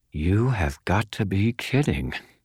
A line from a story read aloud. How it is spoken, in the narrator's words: whispered through my smiling teeth